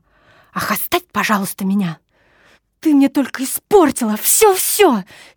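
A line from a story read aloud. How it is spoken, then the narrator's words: Heated exclamation. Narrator (Russian): С сердцем и горячностью воскликнула она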